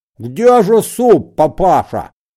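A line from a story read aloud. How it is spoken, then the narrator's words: Shouting with mouth full. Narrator (Russian): закричал Генрих с набитым ртом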